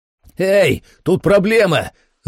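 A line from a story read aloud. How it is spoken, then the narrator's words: Yelled at top of lungs. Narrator (Russian): заорал я во все горло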